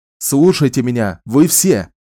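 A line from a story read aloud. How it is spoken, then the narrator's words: Barked. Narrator (Russian): снова гаркнул Ричард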